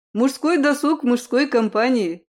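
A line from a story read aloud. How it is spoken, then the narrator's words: Snort. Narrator (Russian): хмыкнул Айвол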